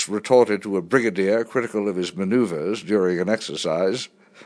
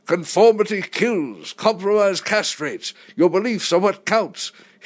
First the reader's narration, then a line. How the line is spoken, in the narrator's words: he'd snort